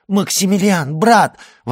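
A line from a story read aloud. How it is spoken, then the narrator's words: Exclaiming. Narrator (Russian): воскликнула она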